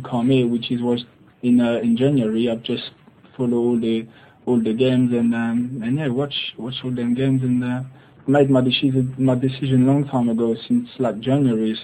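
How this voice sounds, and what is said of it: Weird accent. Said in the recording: “he sounds like Ali G, cross with a slightly retarded or slightly more retarded Ashley Cole? What a weird accent.”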